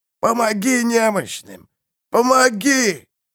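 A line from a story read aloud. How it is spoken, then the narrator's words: Hoarse grumbling chorus. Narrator (Russian): Голоса слились в ворчащий хриплый гул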